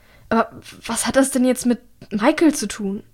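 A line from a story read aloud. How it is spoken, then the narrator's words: Stammering. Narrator (German): stammelt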